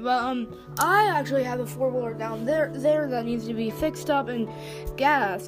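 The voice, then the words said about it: Southern American accent. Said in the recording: “Sorry for my southern accent.”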